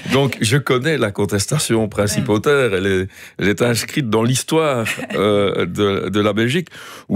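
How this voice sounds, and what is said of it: Slight Liège regional French accent. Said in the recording (French): “mon léger accent provincial est plutôt liégeois, comme vous l'entendez”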